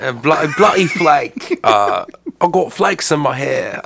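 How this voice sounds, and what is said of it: Put-on English accent. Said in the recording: “do it in an English accent.”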